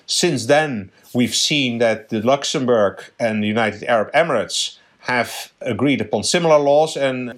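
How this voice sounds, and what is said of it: Subtle Dutch accent. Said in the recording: “may have detected a subtle accent. The Netherlands is your original home.”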